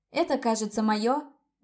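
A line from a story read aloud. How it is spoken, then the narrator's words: Loud declaration. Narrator (Russian): громко заявила я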